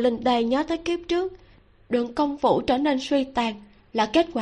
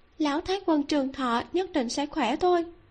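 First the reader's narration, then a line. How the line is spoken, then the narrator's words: Gentle, worried. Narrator (Vietnamese): Nàng lo lắng trong lòng, nhẹ nhàng nói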